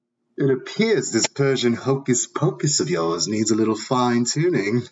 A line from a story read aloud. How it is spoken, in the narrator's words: Taylor chuckled